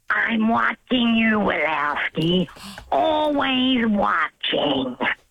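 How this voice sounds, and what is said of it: Imitates old lady cartoon monster voice. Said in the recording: “from Monsters, Inc. ... That's the old lady monster that has the pointy glasses ... You are her, essentially.”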